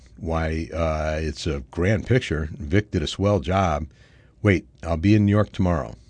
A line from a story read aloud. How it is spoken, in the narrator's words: Roger stammered